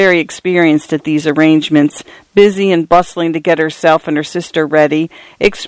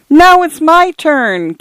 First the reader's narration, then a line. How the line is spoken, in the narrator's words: came the distant wail